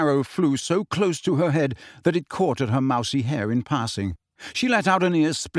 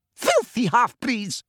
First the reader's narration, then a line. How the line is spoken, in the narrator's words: she screamed